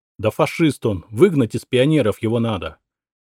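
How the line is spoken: Angry shout. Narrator (Russian): выкрикнул он зло

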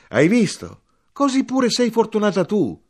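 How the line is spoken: Shouting. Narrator (Italian): io gridai

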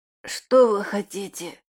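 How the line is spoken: Surprisingly hoarse voice. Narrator (Russian): Наконец спросил Климентов на удивление хриплым голосом

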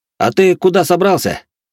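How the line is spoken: Shouted after someone. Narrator (Russian): крикнул ему в спину Карис

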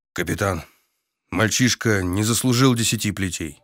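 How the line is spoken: Strained, forced out. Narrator (Russian): Зим выдавил

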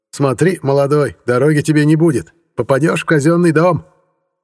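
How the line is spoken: Shouted after, gypsy woman. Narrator (Russian): крикнула мне в спину цыганка

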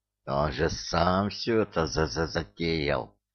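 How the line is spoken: Furious hiss into ear. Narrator (Russian): прошипел разъяренный беззубик на ухо Иккингу

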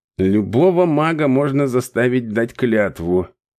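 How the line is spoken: Grumbled. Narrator (Russian): проворчал Дерек

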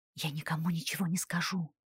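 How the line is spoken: Whispered. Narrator (Russian): прошептала я

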